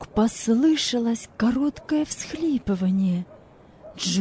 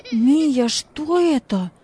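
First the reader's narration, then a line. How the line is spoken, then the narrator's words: Exclaimed. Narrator (Russian): воскликнул он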